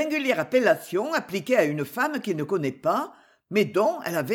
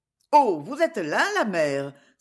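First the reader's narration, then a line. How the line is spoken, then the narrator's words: Joyful exclamation. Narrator (French): s'écrie le visiteur d'un ton joyeux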